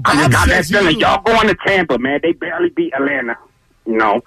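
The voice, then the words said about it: Over-the-top old man drawl. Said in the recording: “his accent goes inside, in and out ... it was over the top ... that old man drawl ... it's fuller. There's more volume to it. It's not like the staccato of every time you talk”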